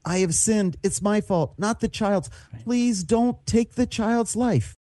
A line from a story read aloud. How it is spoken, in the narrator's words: David pleading with God